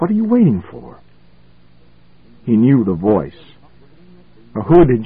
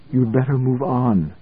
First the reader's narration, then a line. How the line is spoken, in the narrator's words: she said softly